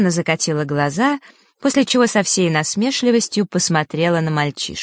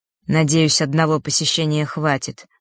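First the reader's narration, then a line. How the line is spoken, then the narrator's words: Grim. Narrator (Russian): мрачно произнес он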